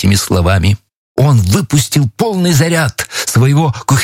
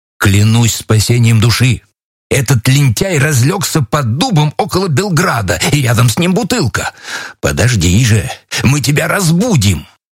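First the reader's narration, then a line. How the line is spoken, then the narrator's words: Exclaimed. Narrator (Russian): воскликнул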